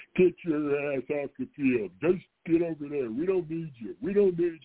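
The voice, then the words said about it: Imitates another person's voice. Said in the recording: “my Lou Holtz impression.”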